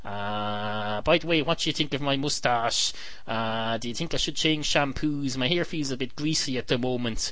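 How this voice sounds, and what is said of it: Attempted Irish accent. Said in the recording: “I'm supposed to be German. I seem to be talking in an Irish accent here, or what I assume is an Irish accent anyway.”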